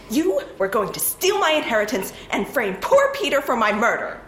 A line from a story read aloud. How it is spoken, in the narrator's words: May said angrily